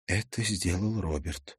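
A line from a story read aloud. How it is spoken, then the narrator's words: Barely audible whisper. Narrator (Russian): едва слышно прошептала девушка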